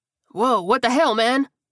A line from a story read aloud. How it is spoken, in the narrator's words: Johnson yelped